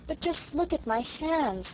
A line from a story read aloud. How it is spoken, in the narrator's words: moaned Sarah